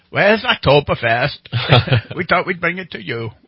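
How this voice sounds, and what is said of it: Mock German accent drifting Scottish. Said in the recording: “my German accent changes into Scottish somehow”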